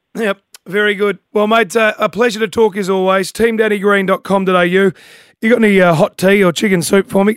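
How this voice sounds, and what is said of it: Strained, worn-out voice. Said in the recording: “my voice is almost cooked”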